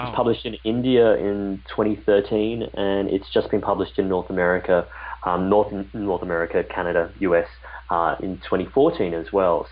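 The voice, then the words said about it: Australian accent. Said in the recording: “You might be able to tell by my accent, which is where I'm originally from ... a very Australian accent”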